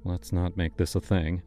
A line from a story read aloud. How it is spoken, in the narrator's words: he muttered